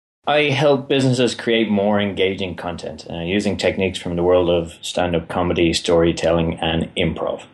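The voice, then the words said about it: Irish accent. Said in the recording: “my accent, which is going to confuse the life out of me ... in case anyone needs a translator here ... I am from Ireland and that tends to dominate a bit”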